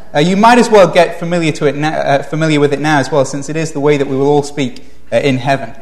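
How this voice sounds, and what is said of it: Speaker's own distinct English accent. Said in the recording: “give you a chance to acclimatize to my accent ... I'm speaking English in the accent that God designed it to be spoken”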